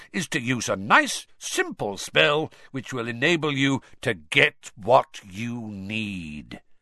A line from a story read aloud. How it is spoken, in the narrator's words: said Moody, loudly interrupting him